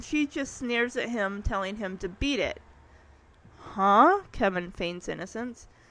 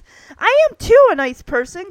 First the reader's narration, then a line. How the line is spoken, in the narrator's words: Kevin yells back at her